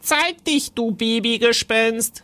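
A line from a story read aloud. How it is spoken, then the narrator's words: Calling out. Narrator (German): rief Timon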